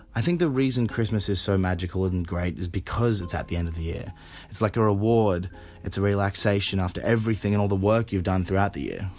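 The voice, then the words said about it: Australian accent. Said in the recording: “as you might have guessed by the accent, he's a real live Australian.”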